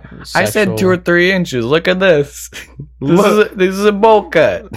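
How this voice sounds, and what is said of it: Put-on Italian accent. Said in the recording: “like a little accent ... you may turn a little Italian”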